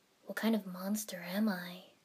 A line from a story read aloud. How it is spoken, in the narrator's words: Sasuke muttered